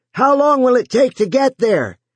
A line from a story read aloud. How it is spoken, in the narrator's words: Joe yelled